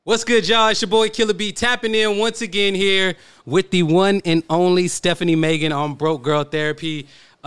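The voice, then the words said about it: DJ-style radio announcer voice. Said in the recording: “I'm going to go full Killer B here ... I haven't turned on my radio voice in I don't know how long ... It's really sexy”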